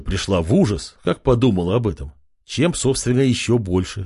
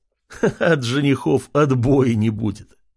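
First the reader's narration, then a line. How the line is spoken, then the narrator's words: Loud laughter. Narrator (Russian): хохотал Артем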